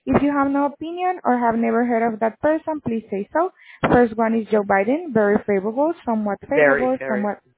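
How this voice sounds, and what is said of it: Heavy accent. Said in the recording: “Your accent is very heavy for me.”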